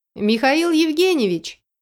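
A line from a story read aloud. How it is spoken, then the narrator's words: Calling out after someone. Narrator (Russian): крикнула я ему вслед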